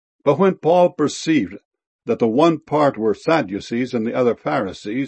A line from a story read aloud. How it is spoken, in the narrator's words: he cried out in the council